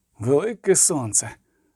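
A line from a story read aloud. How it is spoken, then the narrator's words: Groaned. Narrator (Ukrainian): простогнав Кагір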